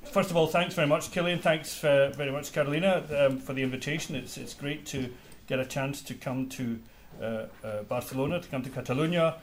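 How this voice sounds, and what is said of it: Scottish accent. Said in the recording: “as you guessed from my accent, Scotland”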